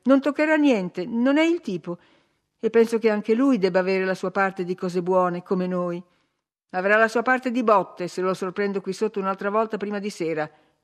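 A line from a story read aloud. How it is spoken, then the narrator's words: Shouted. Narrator (Italian): gridò Hindley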